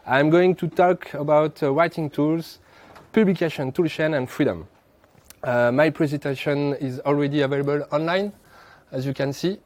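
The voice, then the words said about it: French accent. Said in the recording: “I'm from Montreal, but I'm French. You have already figured it with my beautiful accent.”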